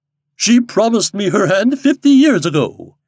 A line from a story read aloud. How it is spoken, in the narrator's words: exclaimed Mr